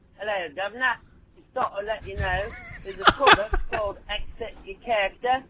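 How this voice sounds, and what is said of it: Poorly done put-on Cockney accent. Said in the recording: “a British accent or more like a Cockney accent, which I'm not doing very well right now.”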